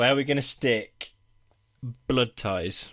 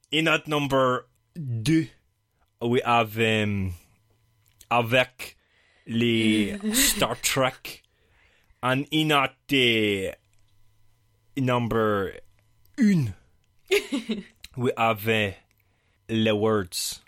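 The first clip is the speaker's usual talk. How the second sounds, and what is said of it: Put-on French-style accent. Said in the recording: “a well-travelled accent”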